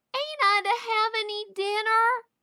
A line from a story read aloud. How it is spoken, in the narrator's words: wailed Davy